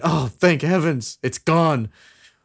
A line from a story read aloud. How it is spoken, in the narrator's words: overcome with terror and at last reluctantly looked up and cried